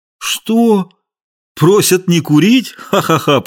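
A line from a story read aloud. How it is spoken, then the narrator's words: Laughing. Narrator (Russian): Полицейский засмеялся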